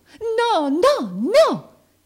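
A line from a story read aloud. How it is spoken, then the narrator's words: Frantic shouting. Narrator (Italian): gridò l'altro pestando il piede con l'energia d'un pazzo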